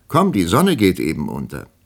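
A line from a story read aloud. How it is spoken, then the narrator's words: Calling into a room. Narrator (German): rief in das Zimmer hinein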